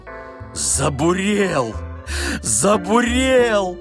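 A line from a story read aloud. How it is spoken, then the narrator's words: Joyful exclamation. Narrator (Russian): радостно вскрикнул Балаганов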